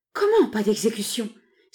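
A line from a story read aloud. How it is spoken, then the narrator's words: Two women exclaiming together. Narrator (French): s'écrièrent en même temps la maîtresse et la servante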